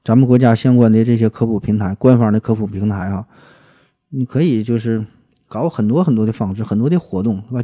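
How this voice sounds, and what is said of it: Noticeable regional accent. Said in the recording (Chinese): “就我这破口音”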